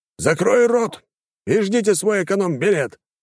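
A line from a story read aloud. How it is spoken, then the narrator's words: Man barking. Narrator (Russian): рявкнул мужчина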